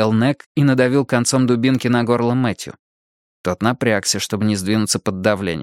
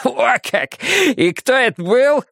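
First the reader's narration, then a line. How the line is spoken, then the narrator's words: Snort. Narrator (Russian): фыркнул Нек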